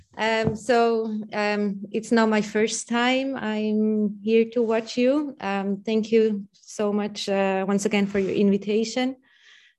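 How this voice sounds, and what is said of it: Swiss accent. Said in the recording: “If you don't understand me properly, it's because of my Swiss accent.”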